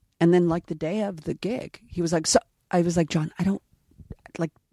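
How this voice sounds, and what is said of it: Usual voice. Nothing is said of it.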